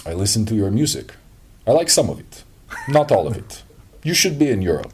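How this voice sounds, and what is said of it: Deliberately bad Russian accent. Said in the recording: “I'm going to do a very terrible Russian accent.”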